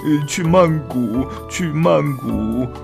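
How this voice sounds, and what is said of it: Quiet mumbling. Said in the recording (Chinese): “小声嘟囔着”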